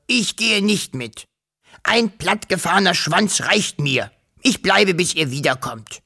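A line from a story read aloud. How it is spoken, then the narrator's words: Dragon hissing. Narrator (German): fauchte der Drache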